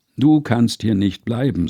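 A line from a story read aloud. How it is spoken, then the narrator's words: Plain. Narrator (German): sagte er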